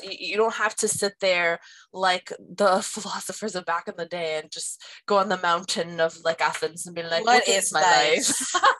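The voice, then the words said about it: Funny put-on accent. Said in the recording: “Your accent when you did that was funny.”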